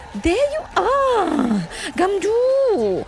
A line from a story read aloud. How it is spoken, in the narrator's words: she cried